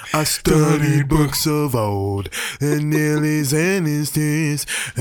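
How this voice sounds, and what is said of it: Nasal sung impression of a singer. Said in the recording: “my Chris Martin singing impression? ... You got to get kind of nasally.”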